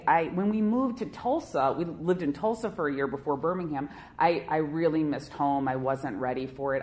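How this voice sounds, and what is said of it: Chicago accent. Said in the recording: “you have a total Chicago accent”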